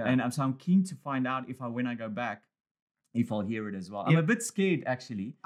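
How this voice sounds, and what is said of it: Australian-tinged South African accent. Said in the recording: “I'm losing a bit of my... I've got this Australian South African accent now ... I love the South African accent”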